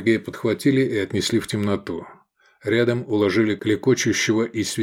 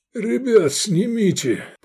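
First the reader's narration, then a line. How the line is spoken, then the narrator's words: Moaning. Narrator (Russian): простонал Лобанов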